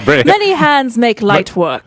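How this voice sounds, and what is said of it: Put-on British Oxford accent. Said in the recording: “he says it in a much more fabulous accent than we say ... Oxford ... You do British.”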